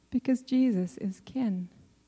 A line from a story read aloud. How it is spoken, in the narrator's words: The answer came gently